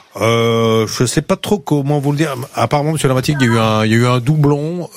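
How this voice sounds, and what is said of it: Put-on accent. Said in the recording (French): “J'avais pris un accent, j'avais tout pris.”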